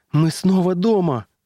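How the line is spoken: Exclaimed. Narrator (Russian): воскликнула она

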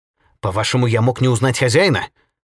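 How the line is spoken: Surprisingly sharp objection. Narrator (Russian): на удивление резко возразил секретарь

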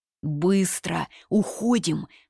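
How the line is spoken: Hissed. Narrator (Russian): прошипел Шу Дуньжу

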